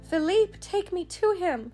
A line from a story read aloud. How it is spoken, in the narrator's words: she cried